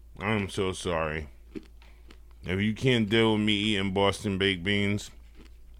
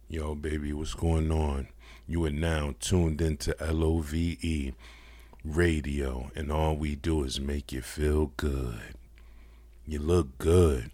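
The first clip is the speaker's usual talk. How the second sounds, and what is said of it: Put-on sexy radio DJ voice. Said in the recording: “I got a sexy voice.”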